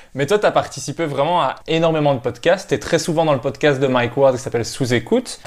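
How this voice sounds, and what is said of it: Melodious Belgian French accent. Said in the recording (French): “un Belge ... un accent mélodieux et harmonieux ... mon accent harmonieux ... un accent harmonieux et mélodieux”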